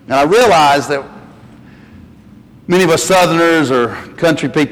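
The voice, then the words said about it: Southern US mountain accent. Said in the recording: “people didn't love my accent out there... country boy from the mountains of North Carolina”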